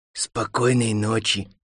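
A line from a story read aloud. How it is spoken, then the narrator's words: Slightly hoarse voice. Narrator (Russian): сказала чучело немного хриплым голосом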